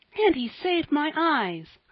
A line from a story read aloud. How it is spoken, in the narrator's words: cried Polly, full of gratitude